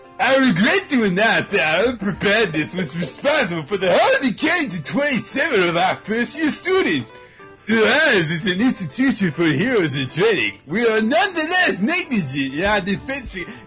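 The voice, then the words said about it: Principal impression drifting toward Sylvester Stallone. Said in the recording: “Benzai impression ... This is getting, like, more and more Sylvester Stallone as I do this.”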